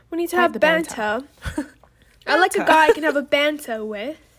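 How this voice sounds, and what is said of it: Put-on English accent. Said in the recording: “when you say an English accent, it just doesn't sound the same”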